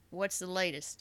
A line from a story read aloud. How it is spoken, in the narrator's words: Carver chuckled